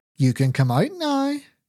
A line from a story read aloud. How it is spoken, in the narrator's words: Judy called in a cheerful and playful voice